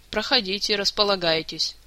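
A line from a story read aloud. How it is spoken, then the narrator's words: Tired. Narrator (Russian): устало произнес Шелар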